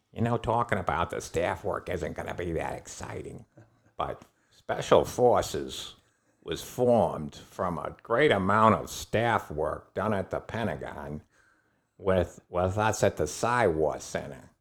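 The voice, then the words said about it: Imitates another person's voice. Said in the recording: “do my Aaron Bank voice”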